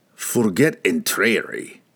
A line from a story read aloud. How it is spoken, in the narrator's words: Brunner growled in his face